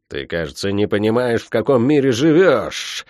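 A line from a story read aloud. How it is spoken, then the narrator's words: Angry, through gritted teeth. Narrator (Russian): зло процедила Тия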